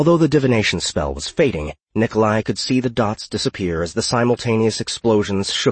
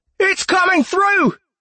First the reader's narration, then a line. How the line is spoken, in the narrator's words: Someone yelled